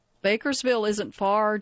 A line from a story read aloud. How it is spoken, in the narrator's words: Jesse said